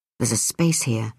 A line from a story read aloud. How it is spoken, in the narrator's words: he muttered